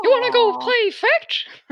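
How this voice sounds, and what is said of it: Mickey Mouse cartoon voice. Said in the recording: “my Mickey impression”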